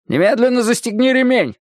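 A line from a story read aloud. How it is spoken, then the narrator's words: Shouting. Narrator (Russian): закричал Ля Тюлип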